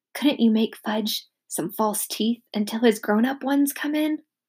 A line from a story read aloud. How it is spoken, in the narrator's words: I whispered